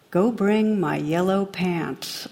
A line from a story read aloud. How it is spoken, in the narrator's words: the captain calmly replies